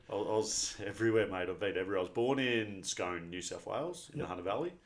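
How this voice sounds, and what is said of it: Slight Australian country accent. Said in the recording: “Hint of country accent in there”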